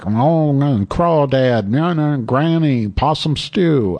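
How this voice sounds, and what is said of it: Imitates a Southern US accent. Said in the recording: “I don't speak Southern, so I certainly don't speak Southern black”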